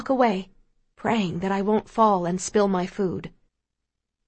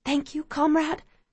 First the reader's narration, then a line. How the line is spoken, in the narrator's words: Somehow I manage to whisper